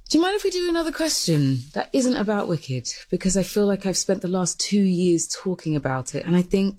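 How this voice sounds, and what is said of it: Woman speaking with a distinctive accent. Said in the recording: “Wow, I could just listen to her talk all day. I just like that accent.”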